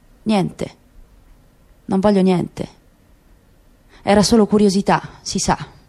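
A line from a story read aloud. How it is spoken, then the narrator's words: Subdued reply, hidden passion. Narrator (Italian): una buccia sottile che nascondeva fiamme invisibili, con voce sommessa rispose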